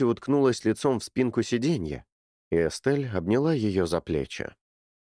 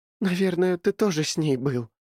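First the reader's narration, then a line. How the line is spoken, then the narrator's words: Sobbing. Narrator (Russian): всхлипнула Кэти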